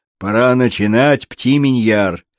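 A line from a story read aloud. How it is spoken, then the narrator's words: Cheerful shout. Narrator (Russian): весело крикнул Шарль-Оду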